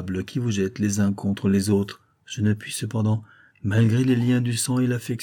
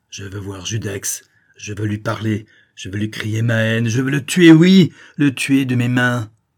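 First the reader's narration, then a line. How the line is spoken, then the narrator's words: Shouting. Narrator (French): en criant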